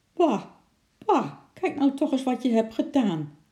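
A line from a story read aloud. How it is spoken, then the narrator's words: Woman calling out. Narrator (Dutch): riep de mevrouw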